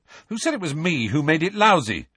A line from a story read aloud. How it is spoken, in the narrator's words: snapped Ron